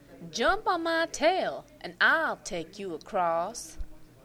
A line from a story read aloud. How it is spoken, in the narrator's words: said the fox